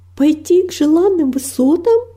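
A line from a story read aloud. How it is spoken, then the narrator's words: Exclamation. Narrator (Russian): воскликнула она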